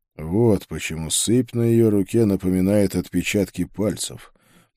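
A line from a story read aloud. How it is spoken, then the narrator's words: Muttered. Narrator (Russian): пробормотал я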